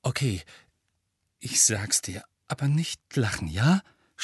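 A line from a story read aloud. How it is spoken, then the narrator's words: Defensive stammer. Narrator (German): stammelte Ron abwehrend und lief mit jeder Sekunde Röte an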